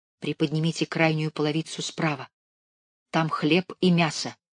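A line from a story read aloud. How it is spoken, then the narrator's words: Whisper through a slit. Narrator (Russian): в нижней смотровой щели, как и вчера, прошептали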